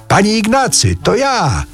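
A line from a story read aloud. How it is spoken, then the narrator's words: Newcomer shouting into ear. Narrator (Polish): przybysz krzyknął mu w ucho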